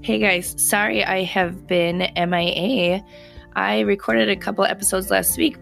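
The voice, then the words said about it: Slightly hoarse, recovering voice. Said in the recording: “as you can probably hear, I had lost my voice. ... it is so much better, although you can still hear it a little bit”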